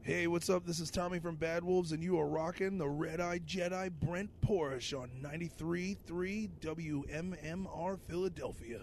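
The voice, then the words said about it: Intense radio DJ voice. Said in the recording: “I like my radio voice. It's really intense.”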